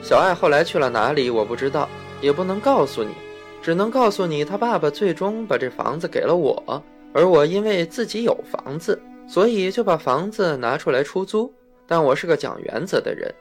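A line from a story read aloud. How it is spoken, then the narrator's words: Landlord, laughing. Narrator (Chinese): 房东笑说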